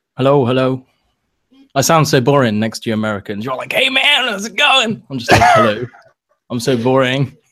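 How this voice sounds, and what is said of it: Noticeable non-American accent. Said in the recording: “Everybody on Twitter always loves your accent. They're like clamoring about your accent ... Most people just read the tweets in a Bond accent.”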